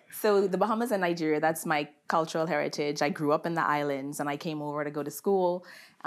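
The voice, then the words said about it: Bahamian accent. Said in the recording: “I am from the beautiful islands of the Bahamas. ... In case you didn't hear my accent. ... I heard it come out. ... I can camouflage it kind of okay, but you know, sometimes ... it comes out when I'm excited.”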